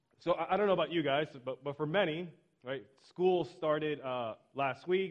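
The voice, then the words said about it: Strained, worn-out voice. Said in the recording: “my voice is a little shot, so if along the way I cough a little bit”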